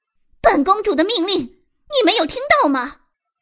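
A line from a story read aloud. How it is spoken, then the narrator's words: Shrill shout. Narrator (Chinese): 尖声吼道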